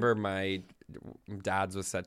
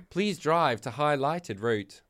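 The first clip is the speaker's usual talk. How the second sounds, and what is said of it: Put-on Australian accent, GPS voice. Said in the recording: “set to an Australian accent ... What did you just do in an Australian? ... in an Australian accent ... it was like not great ... I thought it was great.”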